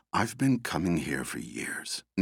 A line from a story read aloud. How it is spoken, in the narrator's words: Nina whispered